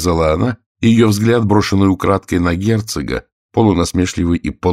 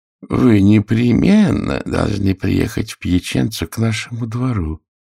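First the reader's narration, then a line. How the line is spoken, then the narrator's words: Cooing. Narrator (Russian): ворковал он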